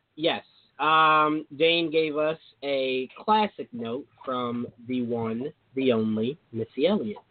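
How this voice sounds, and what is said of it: Sensual radio announcer voice. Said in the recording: “I don't know why I'm giving you guys a sensual radio voice”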